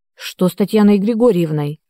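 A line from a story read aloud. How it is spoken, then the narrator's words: Exclaimed. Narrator (Russian): воскликнул Игорь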